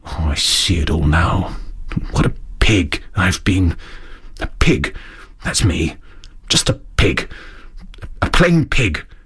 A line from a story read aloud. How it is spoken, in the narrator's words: After a time he muttered gloomily